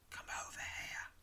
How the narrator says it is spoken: whispers

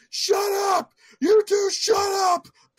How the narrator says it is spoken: He starts yelling at everybody

